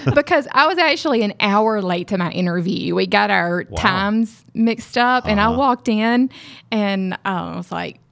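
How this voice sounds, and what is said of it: Mississippi Southern accent. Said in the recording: “They called me Miss Mississippi. ... my accent's”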